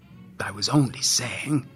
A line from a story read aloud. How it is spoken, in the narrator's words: Santa mumbled into his beard